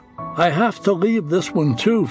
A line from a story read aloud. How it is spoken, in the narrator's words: Fred said